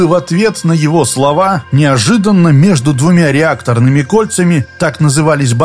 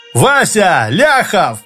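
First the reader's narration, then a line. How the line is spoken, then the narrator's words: Yelling. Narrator (Russian): заорал Спицын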